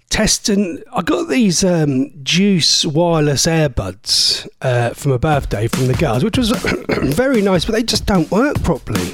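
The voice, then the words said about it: Voice giving out, losing his voice. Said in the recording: “my voice is going ... His voice is going”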